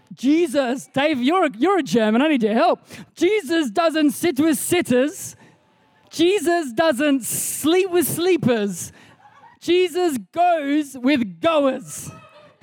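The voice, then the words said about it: Put-on accent, slightly Indian-sounding. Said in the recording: “I always try to do the accent, but Ebony says every accent I try ends up a little bit Indian for some reason ... How's my accent?”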